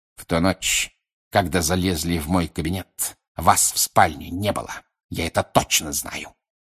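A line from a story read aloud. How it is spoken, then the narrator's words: Hiss. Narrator (Russian): прошипел Снег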